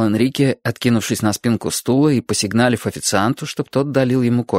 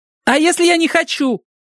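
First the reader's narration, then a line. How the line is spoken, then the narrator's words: Very loud. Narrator (Russian): сказал я так громко, что люди на нас стали оглядываться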